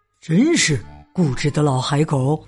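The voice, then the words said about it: Quiet muttering. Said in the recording (Chinese): “小声嘀咕”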